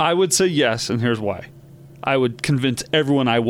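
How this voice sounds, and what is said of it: Usual voice. Nothing is said of it.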